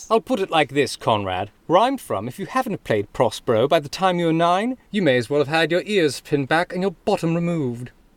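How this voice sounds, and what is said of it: Put-on British accent. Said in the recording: “my charmingly accurate British accent”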